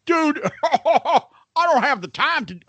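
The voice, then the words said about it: Hillbilly-style imitation of another person. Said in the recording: “Why do I do a fucking hillbilly voice? I do Sonny.”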